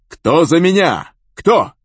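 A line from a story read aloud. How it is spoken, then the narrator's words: Shouting. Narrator (Russian): крикнул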